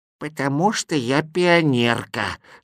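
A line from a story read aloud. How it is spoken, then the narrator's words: Old woman's voice. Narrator (Russian): старушечьим голосом ответила она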